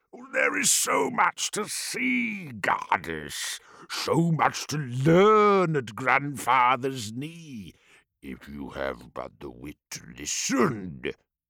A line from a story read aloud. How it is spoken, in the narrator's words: Bolothrax boomed